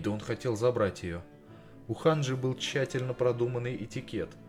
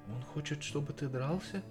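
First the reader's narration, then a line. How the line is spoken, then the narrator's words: Very gentle. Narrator (Russian): выразилась она очень мягко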